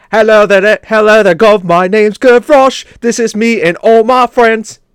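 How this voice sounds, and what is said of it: Put-on British Cockney-style accent. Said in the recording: “singing in a British accent ... that sounds real French there. Yeah, totally French.”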